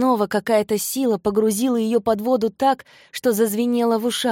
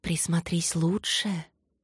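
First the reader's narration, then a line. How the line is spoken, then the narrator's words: Whispering ancestral voices. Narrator (Russian): нашептывали прародительницы в ее мысли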